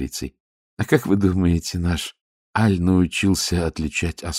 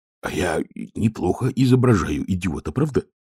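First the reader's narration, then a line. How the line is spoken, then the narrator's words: Whispering. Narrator (Russian): прошептал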